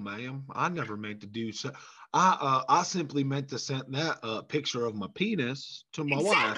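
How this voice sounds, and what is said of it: Put-on slow Southern drawl. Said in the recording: “you should have the Southern accent... you have that slow Southern drawl.”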